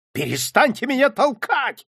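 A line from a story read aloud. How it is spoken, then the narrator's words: Shouted again. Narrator (Russian): снова закричал врач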